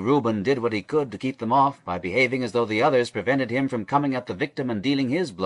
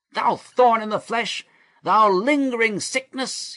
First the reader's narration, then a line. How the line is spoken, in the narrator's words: cried out with the rest